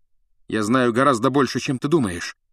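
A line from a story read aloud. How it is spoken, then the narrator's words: Plain. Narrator (Russian): ответил Гарри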